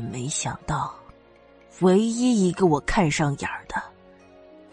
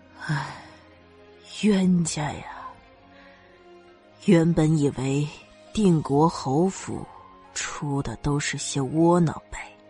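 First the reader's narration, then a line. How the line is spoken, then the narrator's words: Heavy sigh. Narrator (Chinese): 老夫人仰头长叹了一声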